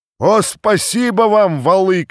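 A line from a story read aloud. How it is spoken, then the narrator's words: Crowd shouting. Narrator (Russian): кричали запорожцы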